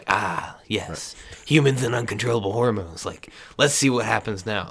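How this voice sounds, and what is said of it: Creepy put-on voice. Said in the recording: “that was a creepy voice”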